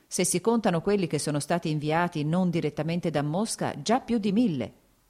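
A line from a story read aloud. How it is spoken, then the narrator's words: Plain. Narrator (Italian): disse Sergei Ivanovich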